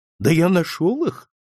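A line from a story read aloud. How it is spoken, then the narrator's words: Bewildered speech. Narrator (Russian): растерянно проговорил он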